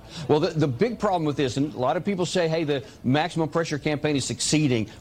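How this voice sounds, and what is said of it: A distinctive regional accent. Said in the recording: “I love this guy's accent. As someone from the South, I can say I love this guy's accent.”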